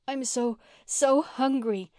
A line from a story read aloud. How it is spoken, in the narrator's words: wailed Mary